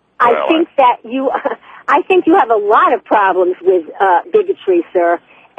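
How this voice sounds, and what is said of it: New York accent. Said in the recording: “It's called a New York accent.”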